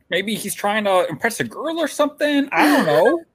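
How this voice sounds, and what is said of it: Imitates another person's voice. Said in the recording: “that actually sounds like him. Yeah, it's a good impression.”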